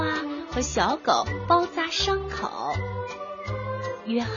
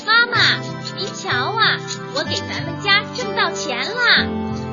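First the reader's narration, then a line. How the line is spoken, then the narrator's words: Loud shout. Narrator (Chinese): 他一进家门就大声的喊道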